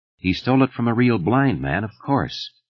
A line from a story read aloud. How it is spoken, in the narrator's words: Thad said calmly